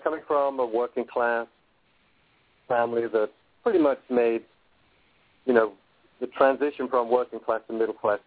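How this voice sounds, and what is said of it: Slight English accent. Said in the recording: “I've still got a slight English accent.”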